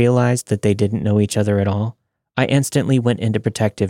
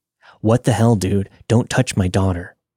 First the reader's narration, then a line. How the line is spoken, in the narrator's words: her dad said in a booming voice